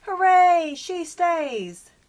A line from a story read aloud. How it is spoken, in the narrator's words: All the dwarves, except for Grumpy, shouted